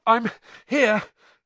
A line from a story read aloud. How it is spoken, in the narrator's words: Harry panted